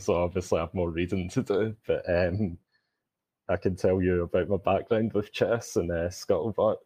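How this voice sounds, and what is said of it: Glaswegian Scottish accent. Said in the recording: “I'm calling in from Glasgow, Scotland, hence the accent.”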